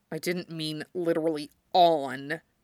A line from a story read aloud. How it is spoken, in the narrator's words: Shiro grumbled